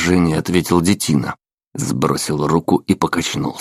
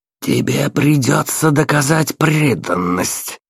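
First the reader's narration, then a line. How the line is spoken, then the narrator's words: Through gritted teeth. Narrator (Russian): процедил бледный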